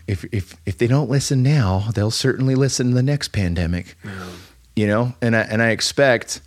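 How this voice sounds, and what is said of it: Condescending imitation of another person's voice. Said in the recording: “I love that Bill Gates impression. You just sound like a condescending little fuck.”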